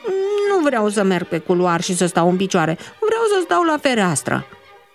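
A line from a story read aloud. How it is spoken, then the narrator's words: Grumbling. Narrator (Romanian): bombăni Dumitru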